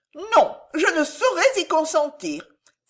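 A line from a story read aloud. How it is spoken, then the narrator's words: Exclamation. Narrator (French): s'écria Mademoiselle Larolle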